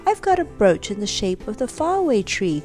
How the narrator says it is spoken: cried Franny

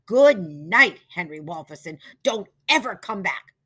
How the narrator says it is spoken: shouted Mrs

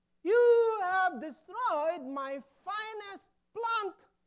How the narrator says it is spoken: When the gardener saw what the little girl had done, he exclaimed

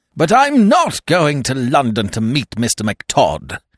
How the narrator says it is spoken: cried with weak fury

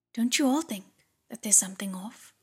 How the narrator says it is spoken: he asked

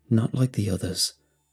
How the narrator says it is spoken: I muttered quietly

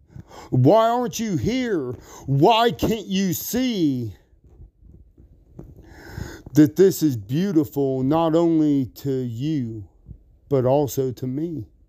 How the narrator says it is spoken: yelling

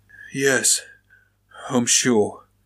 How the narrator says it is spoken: the butcher grunts in discouragement

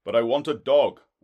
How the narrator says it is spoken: I cried

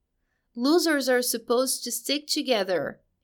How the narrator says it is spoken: he cried out, and now there were tears of despair in his eyes

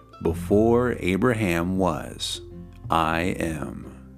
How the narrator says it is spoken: Jesus answered

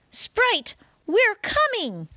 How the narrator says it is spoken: he yelled into the hole

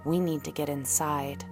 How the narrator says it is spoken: the girl whispered to the woman

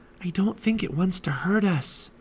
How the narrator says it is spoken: whispered Annie

